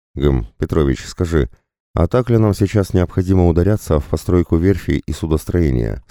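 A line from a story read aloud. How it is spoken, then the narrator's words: Plain. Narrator (Russian): спросил Антон Игоревич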